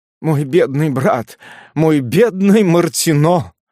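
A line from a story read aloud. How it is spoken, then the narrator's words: Babbling through muffled sobs. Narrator (Russian): лепетала госпожа Корёр, заглушая носовым платком рыдание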